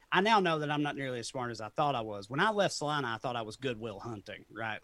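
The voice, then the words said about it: Speaker's own regional accent. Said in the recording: “because of my accent and the way I sounded, people thought that I was stupid”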